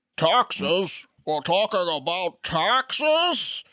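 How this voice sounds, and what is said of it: Gravelly masked-villain character voice. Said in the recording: “I was thinking about doing a Bane McConnell earlier. ... That's a good accent.”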